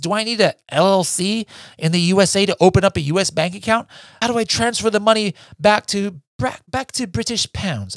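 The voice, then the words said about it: Put-on accent. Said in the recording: “sorry for that accent.”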